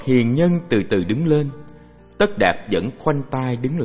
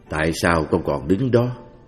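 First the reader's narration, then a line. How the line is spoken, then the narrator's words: Plain. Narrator (Vietnamese): Cha chàng hỏi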